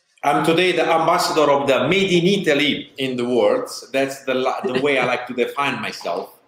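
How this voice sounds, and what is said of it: Strong Italian accent. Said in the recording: “As you can hear from my accent, very strongly Italian.”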